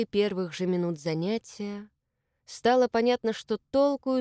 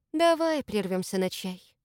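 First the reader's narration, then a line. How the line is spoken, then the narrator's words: Sighing. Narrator (Russian): наконец вздохнула Маша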